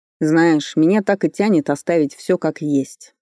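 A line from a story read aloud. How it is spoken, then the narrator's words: Cold stern voice. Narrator (Russian): холодно проговорил Фарли с непонятной строгостью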